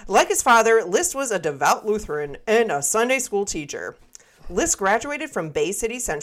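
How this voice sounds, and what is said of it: Usual voice. Nothing is said of it.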